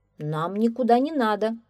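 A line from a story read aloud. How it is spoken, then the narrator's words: Calm answer, policeman. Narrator (Russian): спокойно отвечал милиционер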